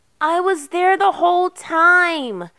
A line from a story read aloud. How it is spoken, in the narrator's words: Erica sobbed, her cheeks flushed with anger